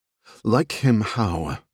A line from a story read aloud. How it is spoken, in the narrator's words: the woman said, her tone taking a frostier turn